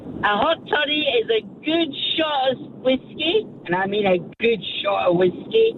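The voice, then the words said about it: Scottish accent. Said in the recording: “how good's that accent? ... That's exactly the accent ... She's Scottish”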